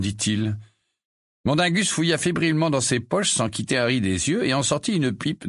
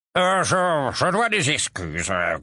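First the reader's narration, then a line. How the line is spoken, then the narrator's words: Grumbling voice. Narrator (French): grogna une voix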